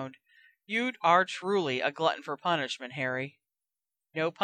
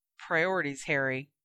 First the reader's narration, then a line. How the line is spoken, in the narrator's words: sighed Hermione